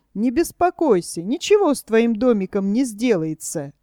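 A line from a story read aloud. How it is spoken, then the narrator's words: Laughing. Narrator (Russian): засмеялся Чиполлино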